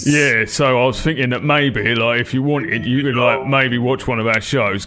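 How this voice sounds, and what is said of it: Put-on London accent. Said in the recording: “why you're using a different voice for this conversation ... put on my London voice”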